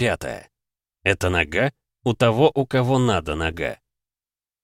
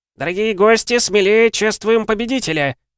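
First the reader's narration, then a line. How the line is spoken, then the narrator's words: Rat yelling. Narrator (Russian): заорал крыс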